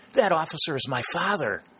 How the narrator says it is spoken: he exclaimed

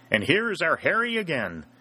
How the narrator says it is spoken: shouted the irrepressible South Carolinian

